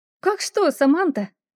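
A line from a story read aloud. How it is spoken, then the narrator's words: Giggling. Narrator (Russian): она хихикнула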